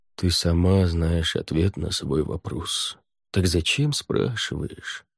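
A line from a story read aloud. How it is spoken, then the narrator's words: Resigned sigh. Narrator (Russian): Хель обреченно вздохнул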